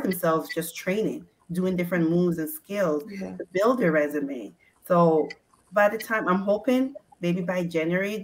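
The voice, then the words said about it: Ghanaian West African accent. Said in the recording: “I hear an accent that's not Canadian ... Ghana, West Africa.”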